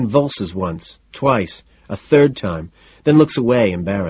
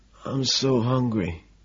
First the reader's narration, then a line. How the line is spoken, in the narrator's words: the bum shamefully after clearing his throat says quietly